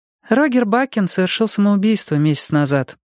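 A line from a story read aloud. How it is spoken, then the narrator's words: Sighing. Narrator (Russian): вздохнула Аннетта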